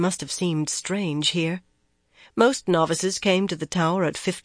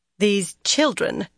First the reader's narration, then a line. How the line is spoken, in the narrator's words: Van Deen went on more firmly